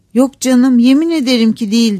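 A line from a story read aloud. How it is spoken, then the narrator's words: Crying out. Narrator (Turkish): diye haykırdı Catherine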